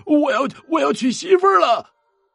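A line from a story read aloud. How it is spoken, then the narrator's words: Loud shouting. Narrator (Chinese): 大声喊呀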